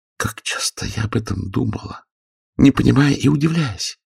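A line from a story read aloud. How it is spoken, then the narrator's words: Barely audible confession. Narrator (Russian): призналась она едва слышным голосом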